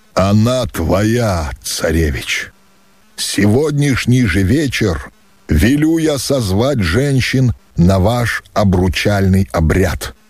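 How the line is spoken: Solemn, weighty. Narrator (Russian): торжественно и веско произнес Кучум

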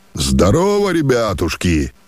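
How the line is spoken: Strong, resonant voice. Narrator (Russian): сильным, звучным голосом отвечал вновь прибывший

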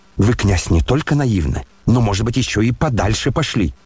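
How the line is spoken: Spiteful smirking remark. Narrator (Russian): злобно усмехнулся племянник Лебедева

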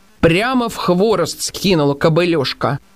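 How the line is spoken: Plain. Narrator (Russian): сказал он

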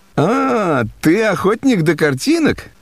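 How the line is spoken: Laughing. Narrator (Russian): Прасковья Ивановна рассмеялась и сказала

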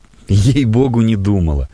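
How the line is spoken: Laughing. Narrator (Russian): засмеялась Надежда Федоровна

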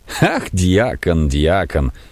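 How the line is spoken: Laughing. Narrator (Russian): повторил фон Корон, смеясь

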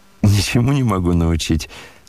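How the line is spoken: Laughing. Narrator (Russian): смеялся и князь

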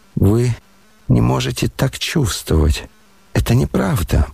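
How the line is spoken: Muttering. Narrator (Russian): бормотал он

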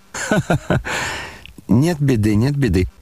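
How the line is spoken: Gleeful, joining in laughter. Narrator (Russian): подхватил Фердыщенко, обрадовавшись, что начали смеяться

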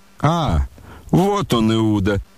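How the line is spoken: Sharp cry, familiar voice. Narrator (Russian): вскрикнул знакомый князю голос

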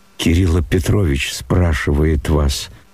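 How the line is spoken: Plain, servant. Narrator (Russian): сказал вошедший слуга

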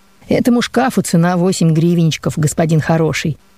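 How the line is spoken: Cheerful man's reply. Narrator (Russian): весело ответил мне дядя

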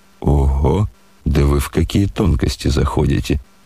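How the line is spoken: Laughing. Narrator (Russian): смеялся генерал

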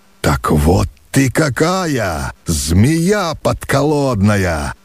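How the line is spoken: Menacing old man. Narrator (Russian): грозно произнес старый хозяин

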